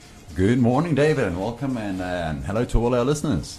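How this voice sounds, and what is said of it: Warm, friendly radio announcer voice. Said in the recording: “You sound like a radio man, hey? ... good voice ... the warm, friendly, smiling.”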